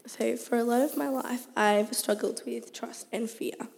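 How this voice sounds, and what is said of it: Strained, nearly lost voice. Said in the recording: “lost my voice ... Probably singing a bit too much ... please excuse my voice”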